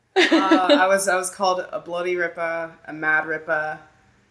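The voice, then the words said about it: Put-on Australian accent. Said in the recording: “That's the extent of my Australian accent. ... It's not horrible.”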